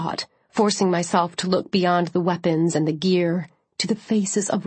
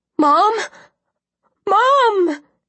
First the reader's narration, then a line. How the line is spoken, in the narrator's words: she surged forward with a shout of